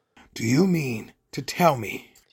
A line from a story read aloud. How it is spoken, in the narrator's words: he growled at the Dursleys